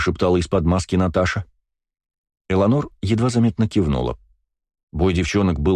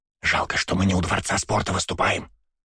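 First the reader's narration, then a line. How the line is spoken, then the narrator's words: Whispered in ear. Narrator (Russian): прошептала на ухо мне Наташа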